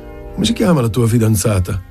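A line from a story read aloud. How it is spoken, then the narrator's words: Laughing. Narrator (Italian): Rise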